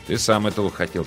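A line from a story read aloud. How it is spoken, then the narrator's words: Quiet reply. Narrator (Russian): так же тихо ответил он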